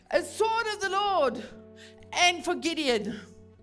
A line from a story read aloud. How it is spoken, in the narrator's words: they all shouted